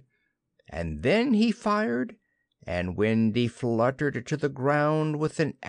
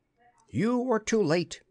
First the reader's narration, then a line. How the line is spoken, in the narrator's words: he cried proudly